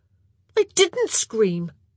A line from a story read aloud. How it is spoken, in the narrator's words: Oliver said indignantly